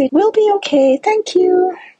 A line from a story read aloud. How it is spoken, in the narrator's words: I calmly say